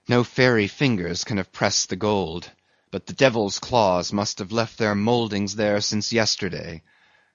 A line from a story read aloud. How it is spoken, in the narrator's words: murmured Starbuck to himself